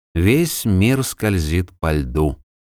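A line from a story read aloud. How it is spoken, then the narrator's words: Quiet. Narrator (Russian): произнес он негромко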